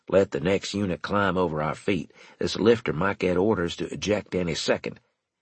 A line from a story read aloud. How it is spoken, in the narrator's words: he said in a low tone, using private tactical radio only